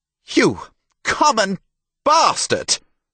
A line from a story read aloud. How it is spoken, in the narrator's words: herald yelled